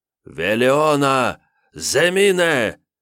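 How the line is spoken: Shouting. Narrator (Russian): Закричав, Йомантас

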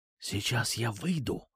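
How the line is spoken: Quiet. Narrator (Russian): тихонько сказал я

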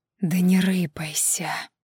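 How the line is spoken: Hissing. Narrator (Russian): шипела фаворитка

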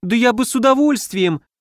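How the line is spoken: Squeak. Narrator (Russian): пискнул Фейри

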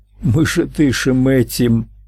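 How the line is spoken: Sobbing. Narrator (Russian): всхлипнула

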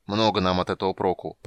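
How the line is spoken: Grumbling. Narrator (Russian): проворчал Гнимш

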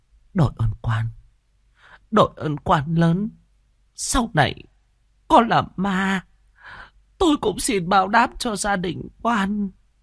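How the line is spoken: Trembling voice. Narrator (Vietnamese): Bà run run

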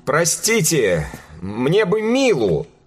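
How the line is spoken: Forced-out words. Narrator (Russian): Наконец выдавил он

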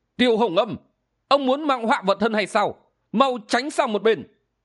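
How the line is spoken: Old woman shouting. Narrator (Vietnamese): Lão quái bà quát lên

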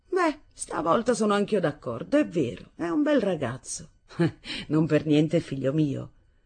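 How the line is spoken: Father laughing. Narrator (Italian): Mio padre rise e disse

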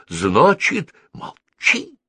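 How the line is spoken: Whisper. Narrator (Russian): шепнул Нофнути Кучи

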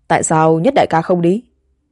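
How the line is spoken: Smiling question. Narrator (Vietnamese): Tất Ninh Xuất mỉm cười hỏi

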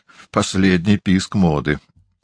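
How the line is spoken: Gloomy mutter. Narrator (Russian): мрачно буркнул Маргалес

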